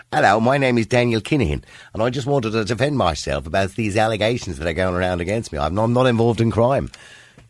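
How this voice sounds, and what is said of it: Put-on English accent. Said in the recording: “a statement read out in an English accent.”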